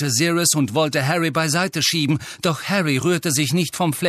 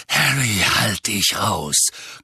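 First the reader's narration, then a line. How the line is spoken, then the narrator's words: Growling. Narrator (German): knurrte Sirius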